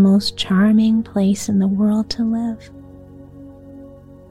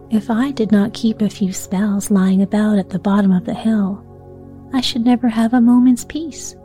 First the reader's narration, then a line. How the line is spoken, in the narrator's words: chuckled the witch of the willow herb